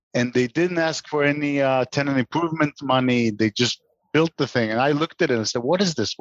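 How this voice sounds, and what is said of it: Texas accent. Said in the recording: “Is that building also in Texas? ... I should have guessed from the accent.”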